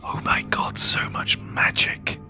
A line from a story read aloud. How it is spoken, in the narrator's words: whisper